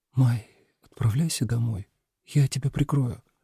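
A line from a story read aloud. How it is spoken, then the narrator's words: Quiet. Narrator (Russian): тихо сказала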